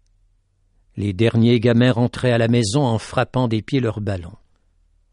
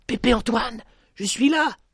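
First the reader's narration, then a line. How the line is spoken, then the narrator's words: Exclaimed. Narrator (French): s'écria-t-il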